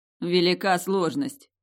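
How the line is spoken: Snorting. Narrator (Russian): фыркнул некромант

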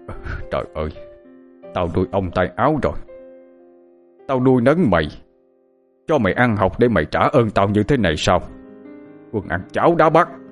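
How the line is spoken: Angry shouting. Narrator (Vietnamese): Ông Sinh bực tức quát lên

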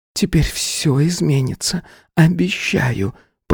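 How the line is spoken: Whispered into cheek. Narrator (Russian): прошептала она, уткнувшись мне в щеку

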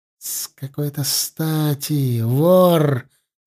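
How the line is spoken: Furious hiss. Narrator (Russian): яростно прошипел Орлайн

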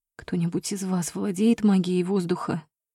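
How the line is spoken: Whisper. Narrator (Russian): прошептала я

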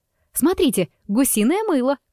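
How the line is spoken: Shouted. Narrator (Russian): крикнула

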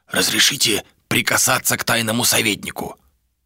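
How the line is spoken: Guard whispering. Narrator (Russian): прошептал страж

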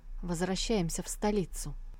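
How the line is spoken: Dry command. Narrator (Russian): Биншан сухо приказала

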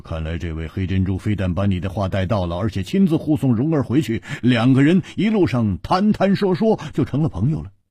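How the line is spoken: Laughing. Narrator (Chinese): 胡铁花笑着说

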